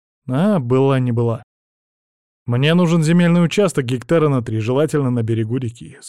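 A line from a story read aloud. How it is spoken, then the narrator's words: Plain. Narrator (Russian): сказал я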